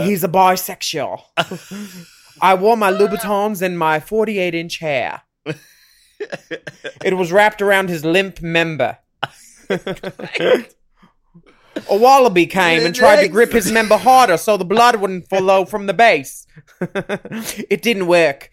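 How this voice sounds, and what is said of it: Poor put-on Australian accent. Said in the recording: “Why are we so horrible in Australian accent?”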